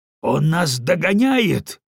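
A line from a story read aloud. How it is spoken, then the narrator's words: Shouting. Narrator (Russian): крикнул генерал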